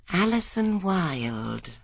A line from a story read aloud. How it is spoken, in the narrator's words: murmured Miss Marple with a nod of satisfaction